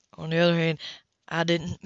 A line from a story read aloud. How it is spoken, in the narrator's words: he said in a deep, soft voice